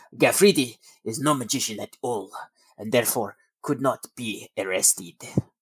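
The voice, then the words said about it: Attempted French accent. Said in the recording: “I imagine that's how he would speak because he's French ... That's my attempt at French accent.”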